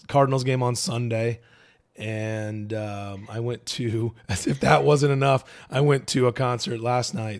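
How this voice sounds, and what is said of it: Hoarse, strained, cracking voice. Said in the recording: “I'm sure there's going to be some voice cracking. Might be going through some puberty ... my voice is a little cached ... your already exhausted vocals”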